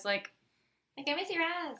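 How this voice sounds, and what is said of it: High squeaky sped-up voice. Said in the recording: “You sounded like a tape recorder, like, sped up. ... Or, like, a mouse or something.”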